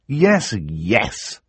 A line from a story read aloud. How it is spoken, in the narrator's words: Klaus said bitterly